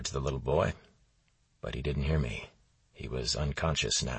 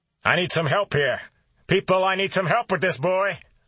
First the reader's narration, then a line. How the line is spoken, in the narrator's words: I shouted